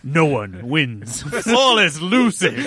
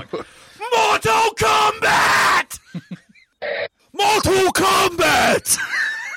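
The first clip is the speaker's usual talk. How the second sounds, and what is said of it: Screamed, drill-sergeant style shouting. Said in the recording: “just scream it ... You're like a drill sergeant.”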